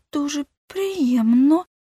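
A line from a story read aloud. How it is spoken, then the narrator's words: Trembling voice. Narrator (Ukrainian): тремтливим голосом сказала Нуся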